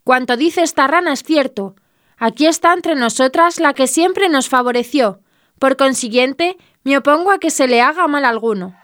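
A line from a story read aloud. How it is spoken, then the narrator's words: Exclaimed. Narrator (Spanish): Una de las ranas exclamó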